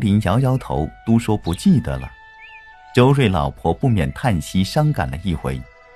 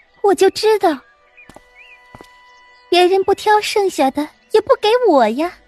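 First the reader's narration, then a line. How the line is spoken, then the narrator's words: Sneering. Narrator (Chinese): 黛玉冷笑道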